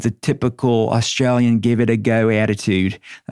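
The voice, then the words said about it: Put-on Australian accent. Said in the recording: “That's my Aussie accent. How did I do?”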